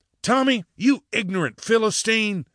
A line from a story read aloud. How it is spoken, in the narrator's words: yelled, patiently